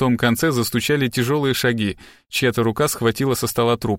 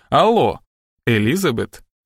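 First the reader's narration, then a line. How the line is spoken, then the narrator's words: Gentle. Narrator (Russian): ласково произнес детектив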